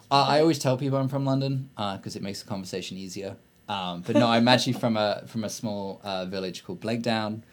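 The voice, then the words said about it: Posh English accent. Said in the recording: “I went to a posh school, which meant that I got this pretentious accent that I hate.”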